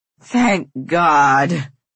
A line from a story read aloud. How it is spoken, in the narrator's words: Myra exclaims, her voice awash with relief